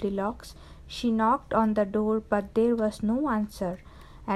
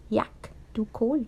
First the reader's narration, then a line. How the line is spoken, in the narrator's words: she spluttered